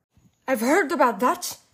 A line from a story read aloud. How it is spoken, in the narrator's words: my grandmother cried out excitedly